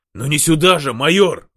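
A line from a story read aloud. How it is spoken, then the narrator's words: Indignant reply. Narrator (Russian): возмущенно отозвался Иващук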